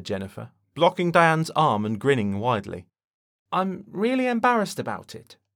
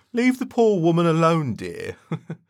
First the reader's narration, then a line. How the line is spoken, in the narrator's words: he chuckled